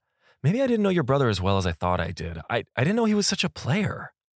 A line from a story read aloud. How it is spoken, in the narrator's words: He just blurted out